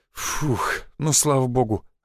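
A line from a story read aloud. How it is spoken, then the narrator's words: Relieved exhale. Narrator (Russian): облегченно выдохнул Федька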